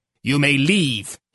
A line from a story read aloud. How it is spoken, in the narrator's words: snapped over his shoulder